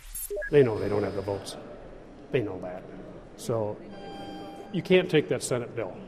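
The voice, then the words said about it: Michigan accent. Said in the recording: “there's a Michigan accent there”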